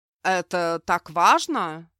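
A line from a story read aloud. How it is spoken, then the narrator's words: Sarcastic reply. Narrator (Russian): язвительно отозвался Идхар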